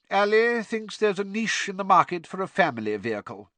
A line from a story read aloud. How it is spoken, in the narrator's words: said Mr